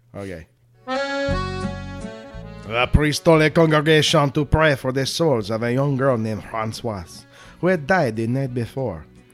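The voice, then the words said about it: Put-on French accent. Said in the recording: “From now on, you have to do this in a French accent.”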